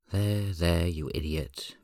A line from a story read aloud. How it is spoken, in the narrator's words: Minho says gently